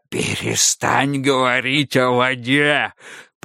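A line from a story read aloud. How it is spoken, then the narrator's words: Hoarse rasp. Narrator (Russian): прохрипел автоматей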